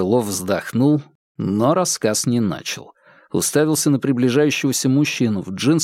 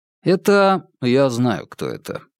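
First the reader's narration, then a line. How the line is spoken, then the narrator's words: Interrupting. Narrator (Russian): снова перебил его Вербин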